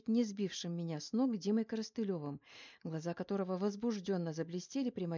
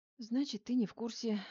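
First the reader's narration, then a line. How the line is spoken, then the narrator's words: Sighing. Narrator (Russian): вздохнула я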